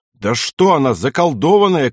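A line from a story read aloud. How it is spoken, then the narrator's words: Shouted. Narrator (Russian): крикнул Пехлеванный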